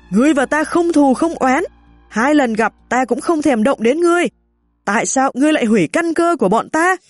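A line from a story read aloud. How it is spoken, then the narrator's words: Frenzied scream. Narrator (Vietnamese): Chúng như phát điên hét lên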